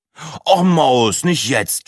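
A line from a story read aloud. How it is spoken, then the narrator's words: Groaned. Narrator (German): stöhnte Breitling und Sina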